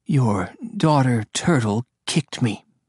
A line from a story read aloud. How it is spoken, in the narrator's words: she muttered